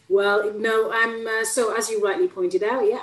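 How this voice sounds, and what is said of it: Bradford Yorkshire English accent. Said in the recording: “Quite away from Bradford, which is where I believe your accent's from.”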